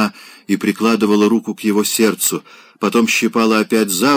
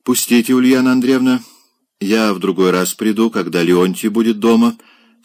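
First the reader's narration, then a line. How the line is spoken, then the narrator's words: Dry, curt speech. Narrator (Russian): сухо сказал он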